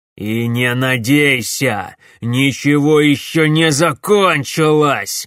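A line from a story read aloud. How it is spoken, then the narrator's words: Angry shout. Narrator (Russian): злобно крикнул барон Клайд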